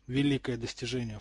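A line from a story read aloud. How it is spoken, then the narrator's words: Scoffing snort. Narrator (Russian): фыркнул Драко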